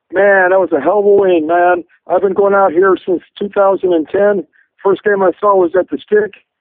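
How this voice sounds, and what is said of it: Hoarse, nearly lost voice. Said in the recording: “Almost lost my voice, you guys can tell.”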